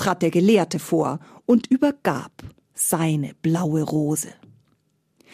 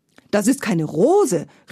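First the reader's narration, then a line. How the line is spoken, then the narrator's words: Angry princess shouting. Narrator (German): rief die Prinzessin wütend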